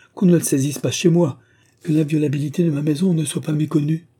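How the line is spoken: Exclaimed. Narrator (French): s'écria Joséphine

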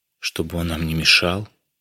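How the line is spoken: Quiet. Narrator (Russian): тихо сказала

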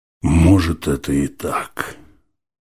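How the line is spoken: Moaned. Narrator (Russian): скорее простонал, чем сказал человек

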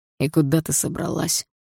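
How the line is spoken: Cold question. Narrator (Russian): холодно спросил Дима

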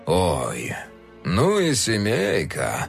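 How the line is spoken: Drawling. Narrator (Russian): протянул он

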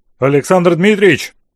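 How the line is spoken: Half-questioning shout. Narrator (Russian): то ли вопросительно, то ли утвердительно крикнул Флотский

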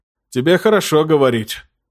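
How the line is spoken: Gloomy. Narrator (Russian): мрачно ответил Арткул, человек-паладин 282 уровня

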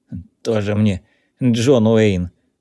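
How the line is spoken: Snorting older man. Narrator (Russian): фыркнул пожилой

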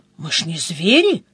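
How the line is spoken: Frightened whisper. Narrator (Russian): Евгений испуганно прошептал

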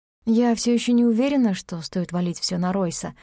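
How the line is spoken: Plain. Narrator (Russian): сказала она

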